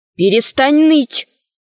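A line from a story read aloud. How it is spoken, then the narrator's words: Stern. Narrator (Russian): строго сказала Алиса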